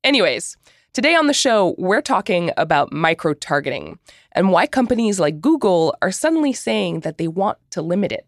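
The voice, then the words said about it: Voice sounds affected by a cold. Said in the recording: “I have a cold, so my voice might sound a little bit different”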